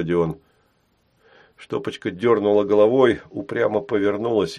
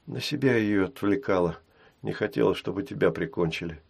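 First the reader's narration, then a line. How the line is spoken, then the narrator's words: Calm explanation. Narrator (Russian): спокойно объяснила Штопочка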